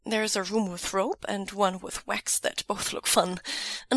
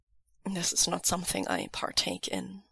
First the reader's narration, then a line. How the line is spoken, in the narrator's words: Lan Wangji says quietly